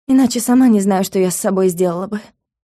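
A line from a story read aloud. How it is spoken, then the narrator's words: Amused grunt. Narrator (Russian): хмыкнула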